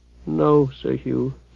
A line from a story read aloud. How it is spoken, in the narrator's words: Blinking back tears, Bane mumbled